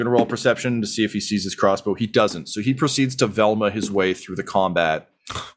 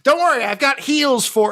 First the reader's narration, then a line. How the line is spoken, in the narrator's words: Grum yells